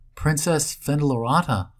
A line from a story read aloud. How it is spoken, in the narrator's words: I gasped